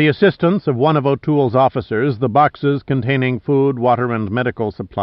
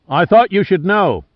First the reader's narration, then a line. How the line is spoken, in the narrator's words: O'Toole shouted above the engine exhaust